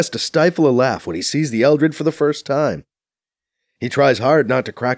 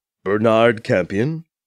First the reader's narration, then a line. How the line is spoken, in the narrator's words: one of the koalas asks in a purring deep voice in clear unaccented English